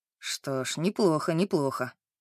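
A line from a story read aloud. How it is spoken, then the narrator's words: Muttering. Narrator (Russian): бормотал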